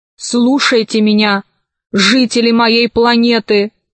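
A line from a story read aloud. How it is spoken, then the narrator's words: Low commanding voice. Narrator (Russian): произнесла она низким, властным голосом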